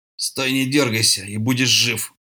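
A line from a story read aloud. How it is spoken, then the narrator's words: Growl. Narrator (Russian): прорычал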